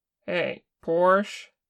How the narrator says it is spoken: Kim called, raising his voice

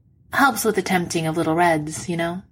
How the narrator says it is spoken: he says cheerfully

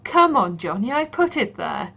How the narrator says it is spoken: Pat reminds him, cackling

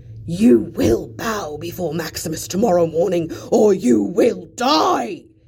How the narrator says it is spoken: he roars out, enraged

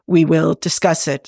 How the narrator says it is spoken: Spock said softly

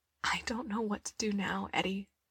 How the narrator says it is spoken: she whispered, her voice thick

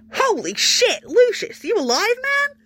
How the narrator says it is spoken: He cupped his hand around his mouth and shouted

